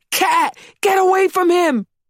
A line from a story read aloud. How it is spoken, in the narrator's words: We screamed at the top of our lungs, hoping to startle the cat enough for it to run away